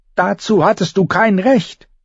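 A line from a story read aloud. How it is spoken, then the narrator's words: Shouted at. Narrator (German): schrie Bran seinen Bruder an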